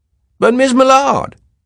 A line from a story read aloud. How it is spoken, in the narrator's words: Ab Snopes cried